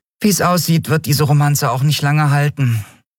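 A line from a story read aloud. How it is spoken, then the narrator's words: Sighing. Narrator (German): seufzte die Yadi schließlich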